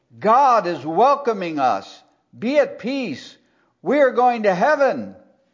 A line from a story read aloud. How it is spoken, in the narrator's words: Compelled by the heavenly vision, he yelled